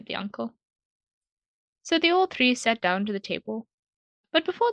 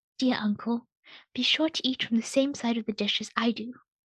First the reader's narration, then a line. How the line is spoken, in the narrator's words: the boy whispered to his uncle